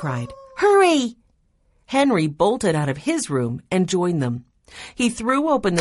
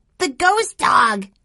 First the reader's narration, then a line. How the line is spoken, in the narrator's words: he cried